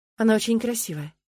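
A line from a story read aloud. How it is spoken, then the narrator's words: Plain. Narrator (Russian): сказала я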